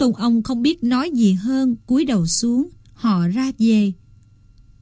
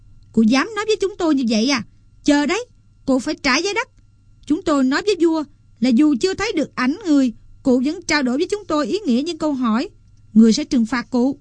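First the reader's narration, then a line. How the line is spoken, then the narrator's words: Men crying out angrily. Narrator (Vietnamese): Các tôn ông giận dữ kêu lên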